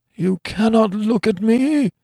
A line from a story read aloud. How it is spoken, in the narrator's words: he groaned in a hopeless way